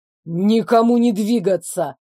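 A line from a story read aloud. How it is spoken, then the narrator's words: Annoyed bark. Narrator (Russian): досадливо рявкнул он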